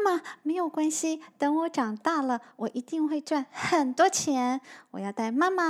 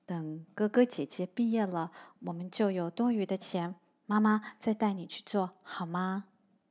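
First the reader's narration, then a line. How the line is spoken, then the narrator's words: Gentle. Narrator (Chinese): 妈妈 她温柔的说着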